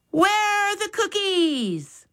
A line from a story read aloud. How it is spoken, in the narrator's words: Max yelled